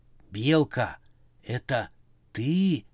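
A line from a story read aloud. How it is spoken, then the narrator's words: Whisper. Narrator (Russian): прошептал он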